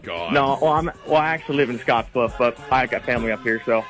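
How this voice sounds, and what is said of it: Speaks with a drawl. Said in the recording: “That's where the drawl's coming from. ... He gets that drawl. ... he's got like a drawl.”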